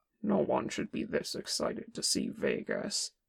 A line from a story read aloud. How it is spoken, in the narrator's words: Kim grumbled